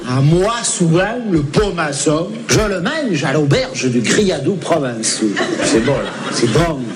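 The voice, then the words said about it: Southern French accent. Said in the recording (French): “c'est bon d'entendre l'accent du Sud”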